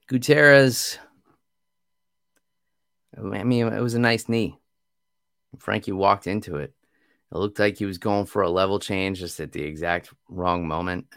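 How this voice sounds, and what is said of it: Strained, fading voice. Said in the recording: “my voice is going too”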